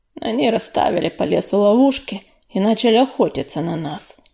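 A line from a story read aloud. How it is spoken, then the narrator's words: Dull muffled reply. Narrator (Russian): глухо отозвался Огнезвезд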